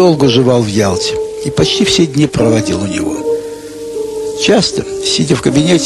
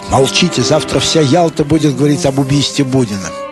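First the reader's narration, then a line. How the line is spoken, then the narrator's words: Quick joyful whisper. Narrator (Russian): он с радостными глазами быстро шепчет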